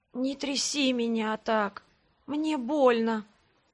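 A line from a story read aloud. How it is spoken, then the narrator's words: Hoarse request. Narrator (Russian): хрипло попросила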